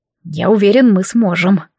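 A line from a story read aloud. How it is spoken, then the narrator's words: Hoarse. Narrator (Russian): хрипло произнес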